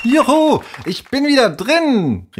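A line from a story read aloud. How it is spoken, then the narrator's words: Called out. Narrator (German): rief Henry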